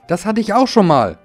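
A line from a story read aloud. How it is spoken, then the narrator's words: Large ride-on mower calling. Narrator (German): rief der große Aufsitzrasenmäher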